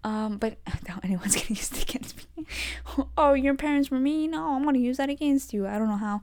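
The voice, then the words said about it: Speaking very fast. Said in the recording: “I'm talking really fast.”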